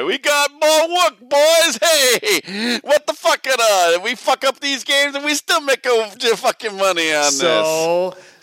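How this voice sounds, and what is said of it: Bad put-on Italian accent. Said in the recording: “horrifically bad Italian accent”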